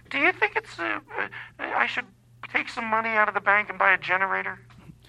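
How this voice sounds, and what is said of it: Put-on mom voice. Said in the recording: “I'm doing a mom voice, but that's not how my mom talks”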